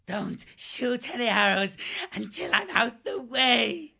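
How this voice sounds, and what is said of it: Hoarse, gasping voice. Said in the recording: “gasping hoarsely”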